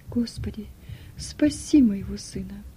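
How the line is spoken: Quiet whispered prayer. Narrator (Russian): тихо шептала

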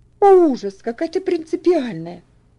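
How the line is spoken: Slightly irritated exclamation. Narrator (Russian): воскликнула Люси слегка раздраженно

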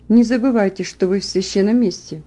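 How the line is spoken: Gentle question. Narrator (Russian): он мягко спросил

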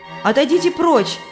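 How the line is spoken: Shout. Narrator (Russian): крикнула Христиана

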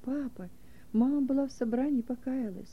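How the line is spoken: Children whispering joyfully. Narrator (Russian): дети радостно шепнули

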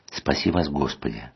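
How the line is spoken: Very quiet near-whisper. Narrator (Russian): сказал отец Сергий очень тихо, почти над самым моим ухом

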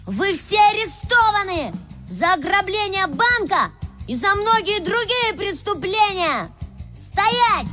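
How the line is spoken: Shouted. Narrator (Russian): он крикнул

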